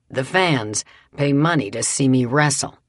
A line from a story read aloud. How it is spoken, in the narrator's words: often said